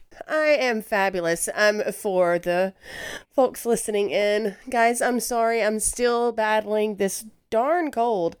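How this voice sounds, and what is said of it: Stuffy, congested voice. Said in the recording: “I sound a little stuffy”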